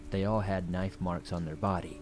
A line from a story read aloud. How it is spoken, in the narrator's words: he answered